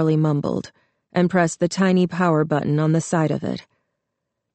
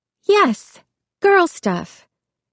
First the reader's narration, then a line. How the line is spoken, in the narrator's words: Jessica squealed excitedly